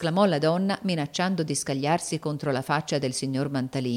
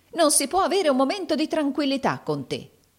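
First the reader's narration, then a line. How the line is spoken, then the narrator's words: Woman exclaiming. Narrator (Italian): esclamò la donna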